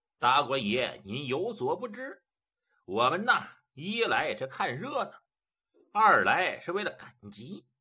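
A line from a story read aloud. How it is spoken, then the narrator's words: Old man, ingratiating smile. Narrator (Chinese): 老者一听是满面陪笑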